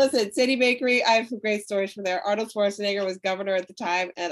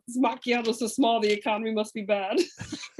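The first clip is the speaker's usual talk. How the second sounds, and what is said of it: Imitates another person's voice. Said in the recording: “The accent.”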